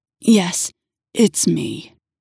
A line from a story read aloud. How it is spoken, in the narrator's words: his voice grunted